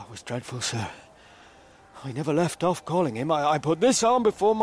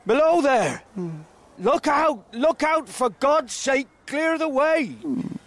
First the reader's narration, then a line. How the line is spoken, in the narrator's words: I shouted